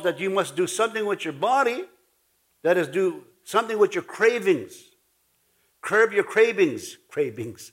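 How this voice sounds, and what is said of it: Ojibwe native accent in English. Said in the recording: “That's my Ojibwe that's coming out. ... native accent”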